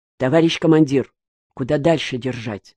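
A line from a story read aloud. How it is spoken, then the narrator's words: Grumbled. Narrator (Russian): буркнул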